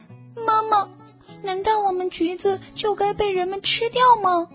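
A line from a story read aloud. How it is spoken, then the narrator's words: Crying. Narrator (Chinese): 他哭着说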